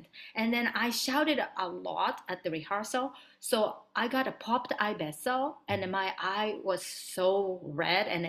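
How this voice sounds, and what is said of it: Woman speaking accented English. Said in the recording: “I have an accent, and I'm like a tiny little Asian girl”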